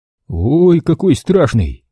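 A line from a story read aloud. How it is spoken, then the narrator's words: Broad relaxed laugh. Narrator (Russian): Широко и вольготно рассмеялся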